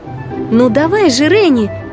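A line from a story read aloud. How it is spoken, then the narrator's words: Shout. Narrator (Russian): крикнула Динь-Динь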